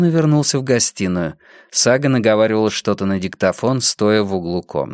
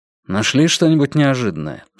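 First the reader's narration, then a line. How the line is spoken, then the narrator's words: Plain question. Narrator (Russian): спросил Йона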